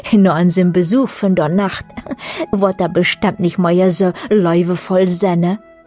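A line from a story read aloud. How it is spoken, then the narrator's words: Others saying laughingly. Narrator (German): äußerten andere lachend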